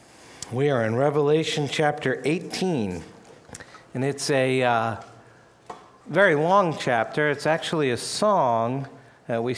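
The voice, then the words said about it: Strained, not fully recovered voice. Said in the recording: “my voice hasn't completely recovered yet”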